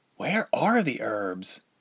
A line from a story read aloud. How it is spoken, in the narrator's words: Ilse muttered quietly